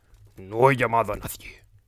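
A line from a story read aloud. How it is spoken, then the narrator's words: Grumbling growl. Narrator (Spanish): gruñó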